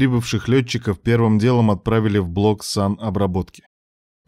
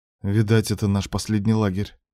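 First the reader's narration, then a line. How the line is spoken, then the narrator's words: Mutter. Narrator (Russian): пробормотал Кравцов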